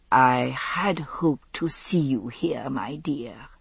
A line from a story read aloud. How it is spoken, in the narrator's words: she said, leaning a bit closer and lowering her voice